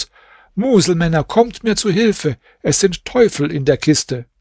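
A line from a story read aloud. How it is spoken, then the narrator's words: Shouting out window. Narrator (German): rief zum Fenster hinaus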